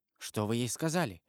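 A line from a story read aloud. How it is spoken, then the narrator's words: Whispered question. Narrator (Russian): шепотом спросил Марсер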